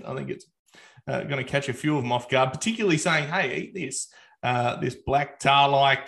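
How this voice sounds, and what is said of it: Broad Australian accent. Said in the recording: “broad Australian accent.”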